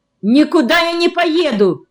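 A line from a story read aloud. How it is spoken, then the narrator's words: Indignant shout. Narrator (Russian): закричал я возмущенно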